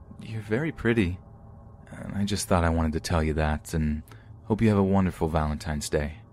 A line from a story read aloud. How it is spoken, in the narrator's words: He said in a calming voice